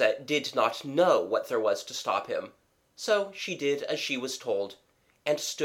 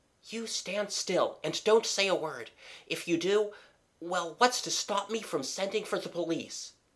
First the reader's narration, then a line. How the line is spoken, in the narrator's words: whispered